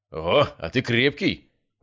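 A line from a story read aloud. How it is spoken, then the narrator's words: Surprised grunt. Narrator (Russian): удивленно хмыкнул мой новый знакомый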